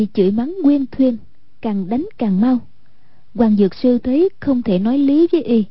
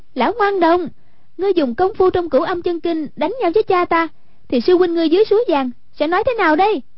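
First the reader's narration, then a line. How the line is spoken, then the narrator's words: Crying out. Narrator (Vietnamese): Hoàng Dung kêu lên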